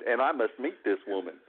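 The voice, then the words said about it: Put-on southern accent. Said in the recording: “that southern accent”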